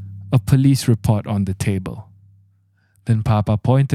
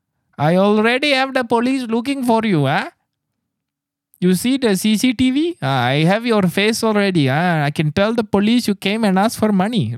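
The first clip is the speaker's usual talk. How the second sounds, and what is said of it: Put-on Bengali accent. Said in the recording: “I imagine he said it with a Bengali accent ... how can someone say something like that and sound scary with that accent?”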